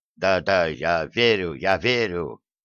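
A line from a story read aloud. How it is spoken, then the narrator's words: Muffled mutter. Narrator (Russian): глухо пробормотал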